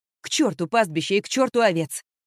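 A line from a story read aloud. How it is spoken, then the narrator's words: Snapping. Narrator (Russian): огрызнулась Вики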